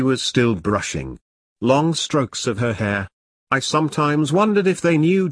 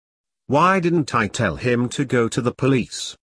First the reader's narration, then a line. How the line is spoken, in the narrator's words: asked